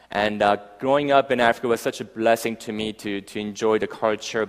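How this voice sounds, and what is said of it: Mixed, hard-to-place accent. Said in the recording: “I grew up um, in Africa for the next 10 years, hence my, my, my accent uh, kind of rolled up somewhere there”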